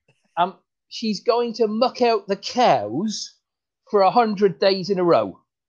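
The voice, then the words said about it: Put-on rural farmer accent. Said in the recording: “your accent's coming in there nicely, son ... I could tell you knew one end of a tractor from the other”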